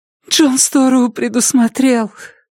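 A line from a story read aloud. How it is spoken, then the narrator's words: Sobbing. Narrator (Russian): Мэтти всхлипнула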